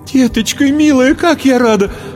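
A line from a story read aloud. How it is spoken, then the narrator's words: Exclaiming. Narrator (Russian): Воскликнула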